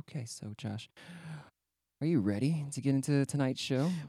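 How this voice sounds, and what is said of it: Public radio announcer voice. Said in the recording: “NPR voice”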